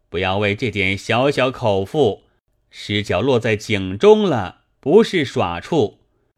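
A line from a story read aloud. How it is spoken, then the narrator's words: Startled cry. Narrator (Chinese): 博徒惊叫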